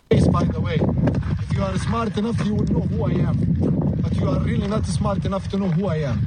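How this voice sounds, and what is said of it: Middle Eastern accent. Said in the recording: “This is a Middle Eastern man. There's a difference. You can tell by the accent ... He sounds like he's right from Iran”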